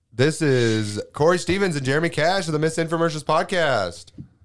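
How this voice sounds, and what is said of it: Exaggerated radio announcer voice. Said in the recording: “why are you doing radio voice?”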